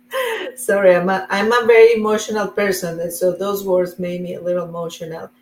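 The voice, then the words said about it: Colombian-accented English. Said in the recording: “where's your beautiful accent from ... I am from Colombia in South America”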